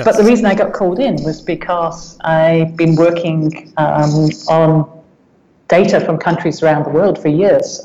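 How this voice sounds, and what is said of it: Non-local accent. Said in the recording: “You can hear from the accent that I'm not from around here.”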